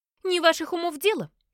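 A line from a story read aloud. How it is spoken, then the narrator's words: Indignant curt retort. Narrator (Russian): отрезала Марджи, возмущенно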